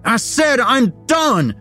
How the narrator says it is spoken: he yelled

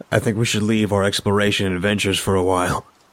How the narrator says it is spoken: Liam chuckled to himself

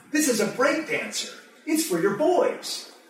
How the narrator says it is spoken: triumphantly announcing

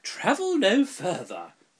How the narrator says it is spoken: cried the tall sister

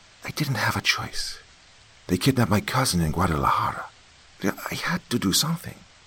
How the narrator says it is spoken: pleaded

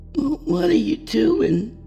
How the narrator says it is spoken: asked in a groggy voice

